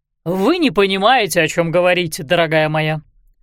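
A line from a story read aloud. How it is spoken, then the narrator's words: Exclamation. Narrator (Russian): воскликнул он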